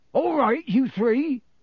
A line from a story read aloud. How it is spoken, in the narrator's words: Hagrid yelled over the heads of the crowd